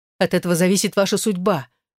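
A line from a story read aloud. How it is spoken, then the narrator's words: Commanding shout. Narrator (Russian): выкрикнула Элаза требовательно и властно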